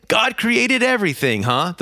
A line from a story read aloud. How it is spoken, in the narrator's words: the professor asked